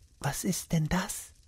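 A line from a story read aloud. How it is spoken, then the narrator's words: Whispered. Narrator (German): flüsterte Beate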